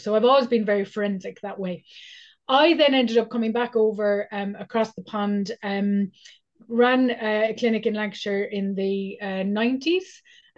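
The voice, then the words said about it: Irish accent. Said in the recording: “I moved back to Ireland, which is where I'm originally from, as you might be able to tell from the accent, it's come back”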